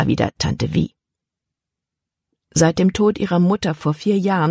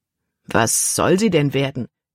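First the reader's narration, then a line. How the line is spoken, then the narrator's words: Plain. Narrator (German): fragte Kapitän Norstad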